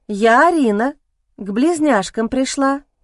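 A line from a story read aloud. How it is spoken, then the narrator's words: Timid reply. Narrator (Russian): робко ответила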